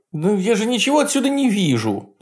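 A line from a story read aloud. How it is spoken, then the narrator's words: Whiny complaint. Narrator (Russian): плаксивым голосом пожаловался Горман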